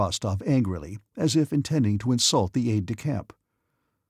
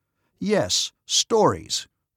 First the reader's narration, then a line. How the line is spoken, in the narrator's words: repeated Rostov loudly, looking with eyes suddenly grown furious